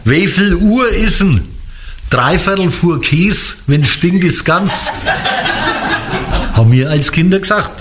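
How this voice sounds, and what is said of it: Franconian German dialect. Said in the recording (German): “das ist fränkisch”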